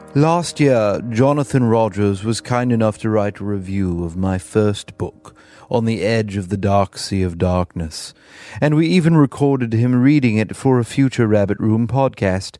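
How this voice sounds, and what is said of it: Alfred Hitchcock impression. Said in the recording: “doing his best Alfred Hitchcock impersonation for the remainder of this episode.”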